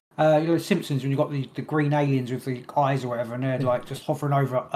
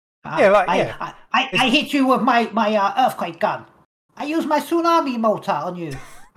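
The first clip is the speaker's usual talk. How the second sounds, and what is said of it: Put-on Chinese accent. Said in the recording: “there's all Chinese like accents or whatever I'm using”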